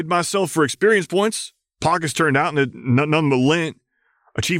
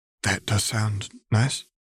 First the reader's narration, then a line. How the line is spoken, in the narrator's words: she replied in a whisper